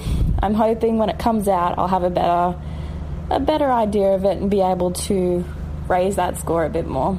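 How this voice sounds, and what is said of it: Australian or New Zealand accent. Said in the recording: “Very well spoken. ... her accent ... what a romantic voice ... New Zealand or Australia?”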